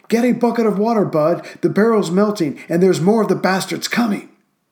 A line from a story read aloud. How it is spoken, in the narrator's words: the 21-year-old gunner yelled